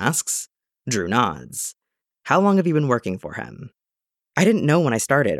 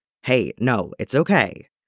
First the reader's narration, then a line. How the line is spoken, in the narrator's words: the soldier says firmly